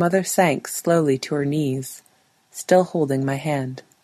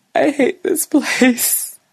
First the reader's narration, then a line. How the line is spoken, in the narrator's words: she gasped the words out between breath